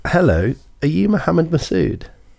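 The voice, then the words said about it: Put-on polite phone voice. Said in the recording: “you put your phone voice on ... Really did. You went, hello. Hello, yeah.”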